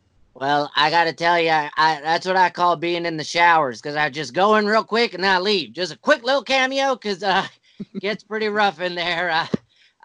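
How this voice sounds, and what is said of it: Put-on Southern accent. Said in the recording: “for some reason I have a Southern accent ... it's like a universal white trash accent”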